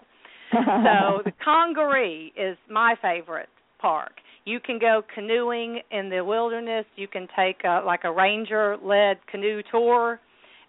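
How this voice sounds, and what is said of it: Southern US accent, South Carolina. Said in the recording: “in case you can't tell by my accent, I'm a South Carolina girl”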